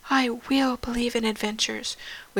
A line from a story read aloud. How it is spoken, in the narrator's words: whispered Katie Brown as she swallowed back the tears